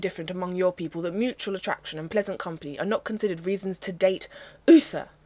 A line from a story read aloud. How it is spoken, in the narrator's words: Merlin snaps